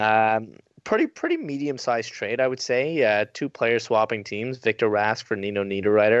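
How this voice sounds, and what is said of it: Usual voice. Nothing is said of it.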